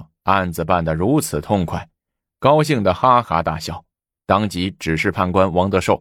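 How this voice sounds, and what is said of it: Usual voice. Nothing is said of it.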